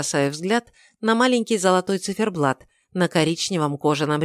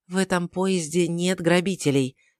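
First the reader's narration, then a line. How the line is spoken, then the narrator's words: Soft. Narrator (Russian): мягко говорю я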